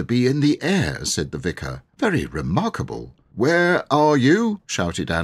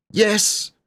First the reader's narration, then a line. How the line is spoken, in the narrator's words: shouted four faraway voices